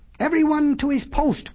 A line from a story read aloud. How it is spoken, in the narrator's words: cried the monkey